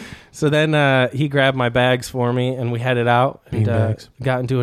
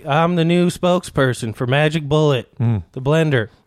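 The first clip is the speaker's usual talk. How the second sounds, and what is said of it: Imitates another person's voice. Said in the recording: “It's a good impression.”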